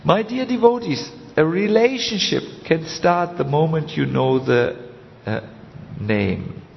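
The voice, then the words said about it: Heavy German accent. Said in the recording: “this strange German speaker with this heavy accent”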